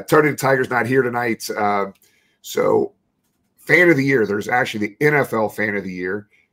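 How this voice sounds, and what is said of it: Strained, weak voice. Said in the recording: “my voice is uh, not here right now, but I'm going to try to fight through it”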